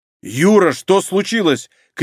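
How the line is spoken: Shouting while running. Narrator (Russian): крикнул он на бегу

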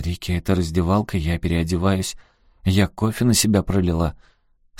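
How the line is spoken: Calm. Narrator (Russian): Я спокойно сказала

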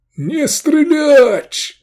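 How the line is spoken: Yelling. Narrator (Russian): заорал он

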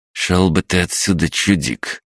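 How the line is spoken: Thug's muttered sneer. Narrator (Russian): процедил один из хулиганов

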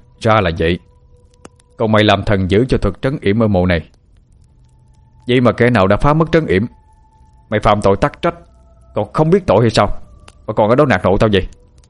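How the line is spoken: Sudden furious shout. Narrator (Vietnamese): Hạ chợt đổi giọng, quát mắt lửa nhìn thần mà quát lớn

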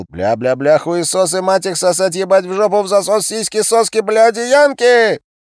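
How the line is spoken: Frantic yelling. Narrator (Russian): Тот несся к ним и вопил

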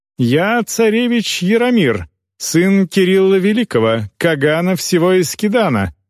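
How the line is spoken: Loud, for all to hear. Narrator (Russian): сказал достаточно громко, чтобы все услышали

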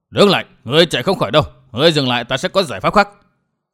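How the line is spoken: Old man shouting while chasing. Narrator (Vietnamese): lão quái nhân áo đỏ bịt mặt vừa quát

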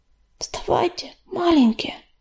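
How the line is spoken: Whispering. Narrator (Russian): шептала она

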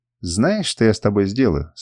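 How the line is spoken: Plain. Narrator (Russian): спросила меня хозяйка

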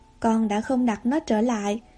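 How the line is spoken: Plain. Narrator (Vietnamese): bà Marilla nói

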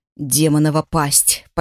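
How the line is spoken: Near growl. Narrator (Russian): почти прорычал Драк

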